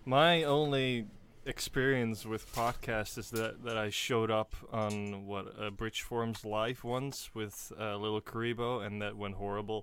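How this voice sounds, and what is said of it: Slight Dutch accent. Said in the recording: “I'm Dutch, so if you hear a slight accent”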